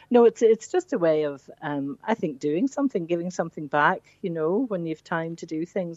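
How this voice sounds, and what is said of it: Lilting northern accent. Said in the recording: “your gorgeous lilting accent, and it certainly isn't a Bandon accent ... The accent hasn't changed over the years. Yeah. But it's a north.”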